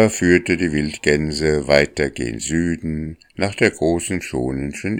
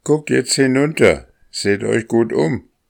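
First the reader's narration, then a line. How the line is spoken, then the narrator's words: Lead goose calling out. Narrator (German): rief die Führergans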